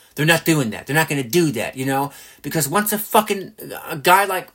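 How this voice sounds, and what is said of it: Usual voice. Nothing is said of it.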